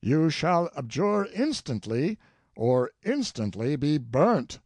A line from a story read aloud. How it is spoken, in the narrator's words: Erard exclaimed